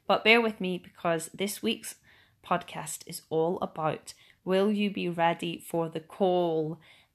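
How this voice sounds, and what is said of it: Strained, sore-throated voice. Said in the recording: “Excuse my voice because my throat has been killing me all week”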